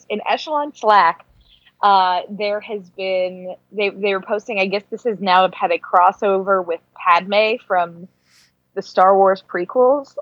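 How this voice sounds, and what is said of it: Hoarse, fading voice. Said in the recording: “oh my God, I'm losing my voice.”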